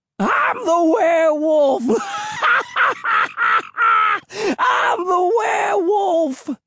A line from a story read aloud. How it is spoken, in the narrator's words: crazed hermit's high-pitched wails of laughter echoed through the swamp